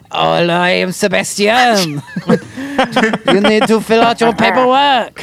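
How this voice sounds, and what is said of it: Fake French accent. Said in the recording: “your French boss doing an accent ... I've done two distinctly different French accents”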